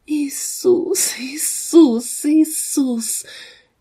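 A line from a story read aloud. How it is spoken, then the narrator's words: Calling through tears. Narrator (Russian): она только звала сквозь слезы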